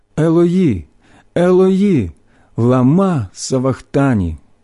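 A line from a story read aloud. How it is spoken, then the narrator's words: Loud cry. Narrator (Ukrainian): Ісус скрикнув голосом сильним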